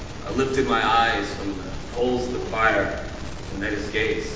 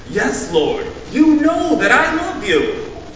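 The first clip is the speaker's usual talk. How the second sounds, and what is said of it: Slightly defensive tone. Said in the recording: “My voice was a bit defensive.”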